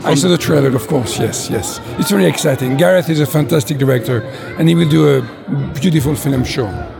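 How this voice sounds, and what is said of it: French accent. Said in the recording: “that amazing French accent ... I love the accent”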